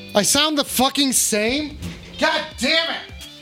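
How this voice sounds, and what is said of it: Yelling angrily. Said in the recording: “now you're yelling”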